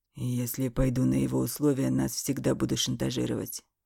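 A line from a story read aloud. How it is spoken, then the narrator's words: Hoarse voice. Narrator (Russian): хрипло сказал он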